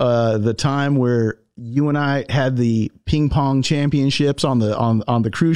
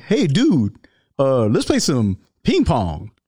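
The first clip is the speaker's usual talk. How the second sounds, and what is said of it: Imitates another person's voice. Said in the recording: “I'm going to do my Ronnie Coleman accent right now”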